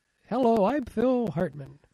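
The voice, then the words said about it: Imitates another person's voice. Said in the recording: “do a terrible Phil Hartman impersonation”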